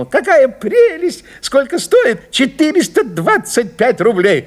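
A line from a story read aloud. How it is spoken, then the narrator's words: Flatterer's fake exclamation. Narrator (Russian): льстец, гиперболист и фальшивая низкопоклонная душонка ... ненатурально воскликнул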